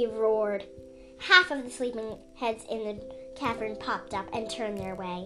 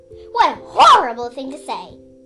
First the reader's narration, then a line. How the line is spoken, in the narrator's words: Sandfly barked